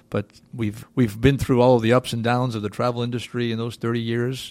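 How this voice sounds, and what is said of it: Slight Boston accent. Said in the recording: “You probably can detect a little accent in my voice ... back in Boston ... originally from New England”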